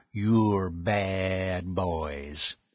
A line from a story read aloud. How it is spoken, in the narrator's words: he told them with a drawl of the adjective